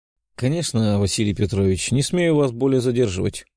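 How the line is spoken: Tired. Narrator (Russian): устало проговорил я

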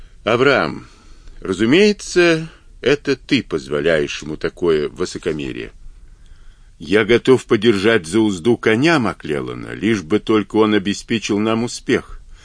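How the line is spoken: Calm reply. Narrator (Russian): спокойно ответил Авраам

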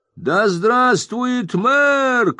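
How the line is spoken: Shouting. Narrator (Russian): кричал кто-то

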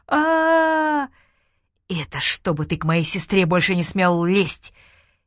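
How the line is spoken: Furious whisper. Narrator (Russian): бешеным шепотом объяснил он Мехмеду

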